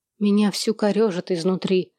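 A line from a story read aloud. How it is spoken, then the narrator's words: Stern, unusually low voice. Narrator (Russian): ответила она необычно низким голосом, сурово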